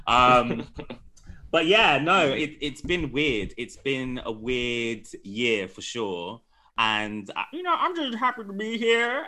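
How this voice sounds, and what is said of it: Put-on accent. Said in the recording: “What the fuck is this accent that you are doing?”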